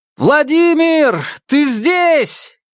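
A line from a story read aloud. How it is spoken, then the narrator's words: Shouted. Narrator (Russian): крикнул Павел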